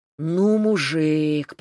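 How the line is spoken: Drawling. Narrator (Russian): протянул Серега

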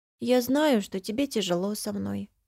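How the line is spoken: Sad small child. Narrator (Russian): грустно начинает крошка

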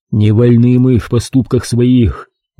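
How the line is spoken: Sighing. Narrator (Russian): вздохнул Дмитрий

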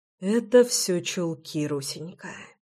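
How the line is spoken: Breathed out. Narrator (Russian): выдохнул Реми

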